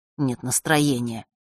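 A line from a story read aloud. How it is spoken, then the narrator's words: Grumbled. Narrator (Russian): буркнул Фэш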